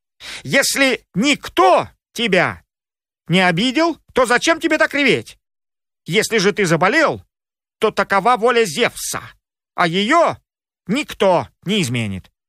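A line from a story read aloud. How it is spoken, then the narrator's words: Angry shout. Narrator (Russian): Рассердились циклопы и крикнули Полифему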